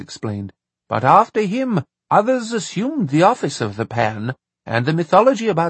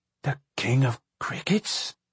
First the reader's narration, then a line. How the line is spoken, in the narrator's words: he said, his voice trembling